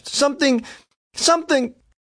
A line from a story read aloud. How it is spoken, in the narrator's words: he gasped